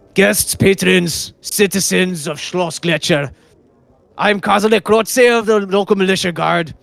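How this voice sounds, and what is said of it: Put-on character accent. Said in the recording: “still figuring out the accent”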